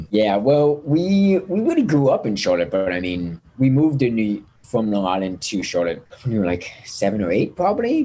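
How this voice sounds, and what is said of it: Thick Long Island New York accent. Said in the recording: “I know the accent there ... Long Island, New York ... it's so thick”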